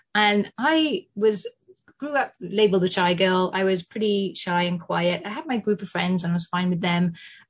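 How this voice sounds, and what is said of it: British English accent. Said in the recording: “you can probably tell from my accent, I grew up in the UK. I lived in London for 15 years”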